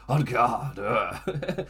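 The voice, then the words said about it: Vince McMahon impression. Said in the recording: “I'm trying to do a Vince voice a little bit.”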